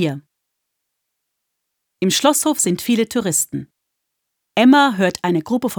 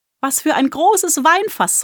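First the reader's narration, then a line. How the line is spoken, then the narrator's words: Girl calling out. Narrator (German): ruft ein Mädchen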